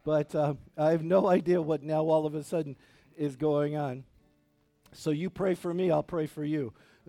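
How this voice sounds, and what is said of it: Voice not sounding normal. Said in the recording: “I apologize for my voice. ... this is not my normal voice.”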